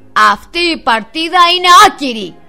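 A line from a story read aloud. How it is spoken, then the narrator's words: Shouted. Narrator (Greek): φώναξε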